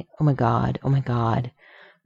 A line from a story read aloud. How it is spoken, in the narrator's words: muttering